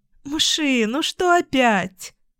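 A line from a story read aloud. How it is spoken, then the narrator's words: Laughing. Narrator (Russian): засмеялась Луна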